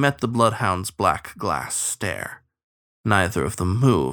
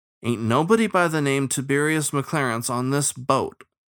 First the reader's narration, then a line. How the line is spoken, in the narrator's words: Shen said firmly